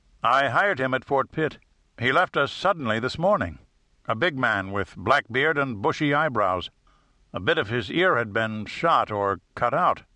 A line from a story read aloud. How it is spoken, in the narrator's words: Shepard replied